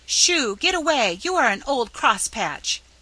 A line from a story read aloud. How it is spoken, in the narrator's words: cried Nan, ungratefully, as she gave up the attempt in despair